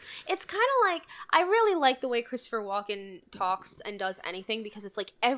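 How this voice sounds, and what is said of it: Usual voice. Nothing is said of it.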